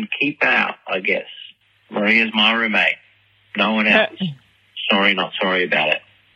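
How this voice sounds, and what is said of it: Ambiguous New Zealand, Australian or American accent. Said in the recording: “I honestly still don't understand if he's from New Zealand, Australia, or America ... if that's a fake accent, that's a really good accent ... It's scary good.”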